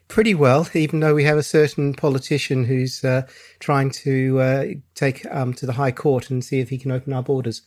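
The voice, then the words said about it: English accent. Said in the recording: “I'm originally English, if you wonder about the accent”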